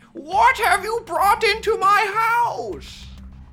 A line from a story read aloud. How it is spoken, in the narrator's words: Dedu screams at Quinn